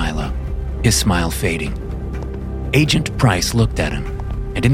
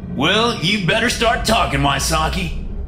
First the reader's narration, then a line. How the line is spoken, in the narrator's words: barked Yang